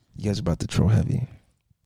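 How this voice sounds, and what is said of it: Whispering. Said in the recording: “Why are you whispering? ... Trying to get seductive.”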